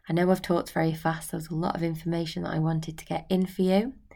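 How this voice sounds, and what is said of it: Strained, fading voice. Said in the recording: “losing my voice,”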